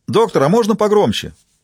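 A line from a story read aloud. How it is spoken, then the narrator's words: Reporter shouting. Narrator (Russian): выкрикнул один из репортеров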